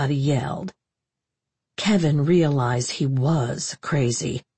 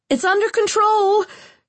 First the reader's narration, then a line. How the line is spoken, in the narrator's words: yelled